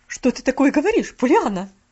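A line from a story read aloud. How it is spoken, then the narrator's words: Very sharp voice. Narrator (Russian): голос мисс Поли прозвучал очень резко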